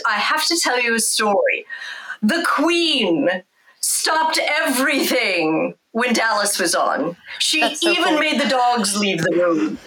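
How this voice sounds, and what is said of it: Put-on English accent. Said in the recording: “in his English accent”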